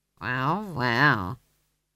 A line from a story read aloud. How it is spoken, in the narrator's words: he said weakly